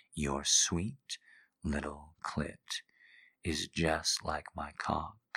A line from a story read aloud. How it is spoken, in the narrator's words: he murmured